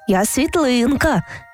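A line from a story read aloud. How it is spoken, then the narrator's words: Plain. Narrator (Ukrainian): відповіла хмаринка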